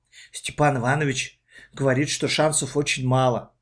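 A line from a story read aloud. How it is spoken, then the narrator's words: Whisper. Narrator (Russian): прошептала Катя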